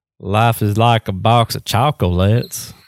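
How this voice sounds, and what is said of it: Forrest Gump character impression. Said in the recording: “my Forrest Gump impersonation... You impersonate Forrest Gump every day.”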